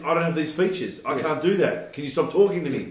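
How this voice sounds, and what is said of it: Put-on American accent. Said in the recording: “talking in an American accent”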